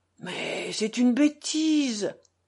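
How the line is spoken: Frightened exclamation. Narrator (French): s'exclama Alyosha, effrayé de leur émoi

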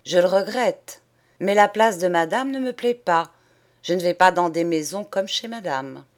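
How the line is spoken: Curt, disdainful. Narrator (French): je disais d'un ton bref et dédaigneux

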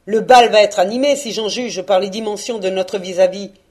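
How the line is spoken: Sneering laugh. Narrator (French): ricana Postec

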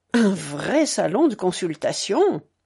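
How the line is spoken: Sneering snicker. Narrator (French): ricanait Monsieur le Sire

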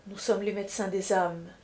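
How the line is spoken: Soft voice. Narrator (French): dit-il d'une voix douce

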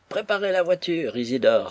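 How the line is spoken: Exclaiming. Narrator (French): s'écria-t-il

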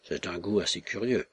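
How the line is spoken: Muttered through teeth. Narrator (French): murmura Kalomeitsev entre ses dents

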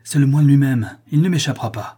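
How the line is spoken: Exclaiming. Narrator (French): s'écria-t-il

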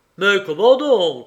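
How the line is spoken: Good-natured exclamation. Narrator (French): s'exclama Garcia, bon enfant

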